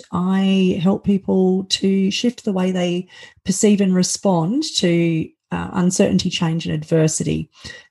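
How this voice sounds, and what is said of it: Australian accent. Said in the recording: “you can probably hear from my accent that I'm not from America. I live in Sydney, Australia.”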